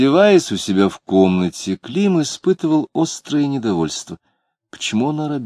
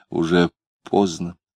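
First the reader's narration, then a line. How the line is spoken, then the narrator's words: Quiet reminder. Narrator (Russian): Лидия тихо напомнила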